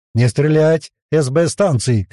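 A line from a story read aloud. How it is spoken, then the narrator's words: Shouted. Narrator (Russian): крикнул Лар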